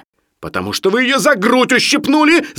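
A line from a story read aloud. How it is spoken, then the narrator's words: Shouting. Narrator (Russian): закричал Барменталь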